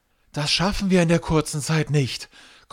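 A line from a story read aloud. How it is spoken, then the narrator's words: Panting. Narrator (German): keucht Mustafa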